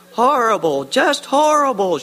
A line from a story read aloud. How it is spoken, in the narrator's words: she cried, covering her nose with both hands